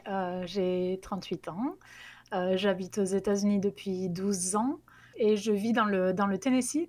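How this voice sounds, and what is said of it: Southwestern French regional accent. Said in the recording (French): “je suis originaire du sud-ouest de la France, donc d'Albi, du Tarn plus précisément, d'où vient le l'accent ... que j'ai gardé ... Ce charmant accent ... je ne l'ai pas perdu en 12 ans”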